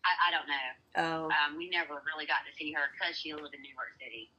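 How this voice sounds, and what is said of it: Southern US accent. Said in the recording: “I just love your accent, by the way, South Carolina ... I miss hearing the Southern accents ... I have Georgia, Tennessee, and South Carolina accent”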